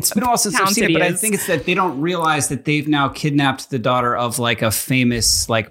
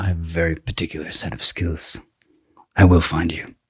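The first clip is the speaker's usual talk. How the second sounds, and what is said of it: Very low voice, Irish-sounding accent. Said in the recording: “Talks very low like this. He's got like a strange accent. ... He's I think he's Irish.”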